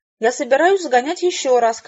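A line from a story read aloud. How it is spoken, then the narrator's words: Shouted. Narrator (Russian): крикнула мисс Хэвишем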